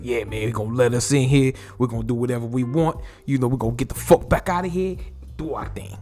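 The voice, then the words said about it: Put-on New York accent. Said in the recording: “I just had to do the New York accent because Michael K. Williams got that New York accent.”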